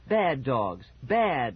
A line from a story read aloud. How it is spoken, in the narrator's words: the phony Margaret shouted